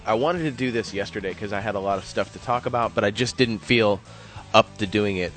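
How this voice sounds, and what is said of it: Ill, low-energy, lower-pitched voice. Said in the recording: “my voice sounds a little different. I'm a little ill, a little low energy ... my voice is about half an octave lower than it normally is”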